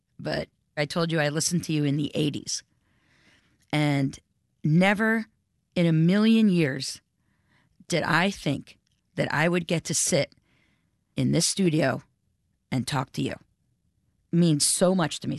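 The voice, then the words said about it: Emotional, moved voice. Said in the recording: “I'm gonna get a little emotional ... I'm emotional.”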